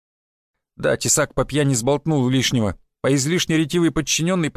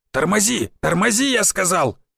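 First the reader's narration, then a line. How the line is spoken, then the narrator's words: Barked. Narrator (Russian): рявкнул он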